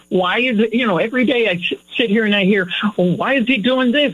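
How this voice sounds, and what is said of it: Loud, yelling, frustrated voice. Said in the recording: “I do my share of yelling. You could probably tell that now ... lower my voice”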